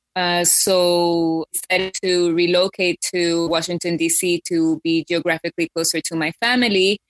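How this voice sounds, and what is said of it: Mixed Hispanic, American and British accent. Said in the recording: “I have a funny accent, not completely Hispanic, not completely American, but also a twang of the London or Britishness.”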